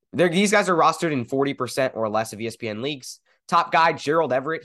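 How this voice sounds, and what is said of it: Congested voice from a cold. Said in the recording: “I have a bit of a cold, unfortunately. But it's getting better.”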